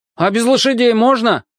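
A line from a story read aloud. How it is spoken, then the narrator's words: Shouted. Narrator (Russian): крикнул Аркашка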